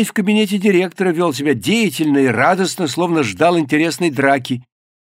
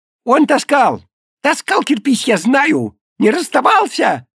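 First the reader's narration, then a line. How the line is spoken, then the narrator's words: Shouted. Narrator (Russian): выкрикнул Колька Лысков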